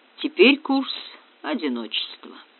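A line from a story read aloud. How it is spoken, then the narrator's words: Mutter. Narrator (Russian): пробормотав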